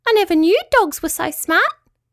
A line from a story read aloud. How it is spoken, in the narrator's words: squeaked Petruchio